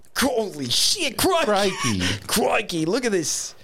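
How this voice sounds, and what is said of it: Steve Irwin Australian accent impression. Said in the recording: “You can be like the guy with the khaki shorts. Steve Irwin ... Every Australian stereotype possible ... I'm terrible”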